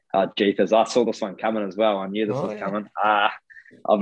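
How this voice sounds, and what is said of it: Usual voice. Nothing is said of it.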